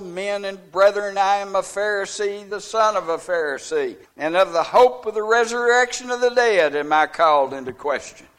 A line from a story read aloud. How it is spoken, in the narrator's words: he cried out in the council